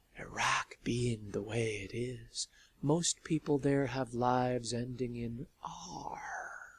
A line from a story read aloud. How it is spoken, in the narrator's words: A voice, which was also a book she held in her hands, whispered